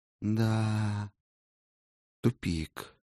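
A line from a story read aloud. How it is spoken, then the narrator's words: Elf sighing. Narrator (Russian): вздохнул эльф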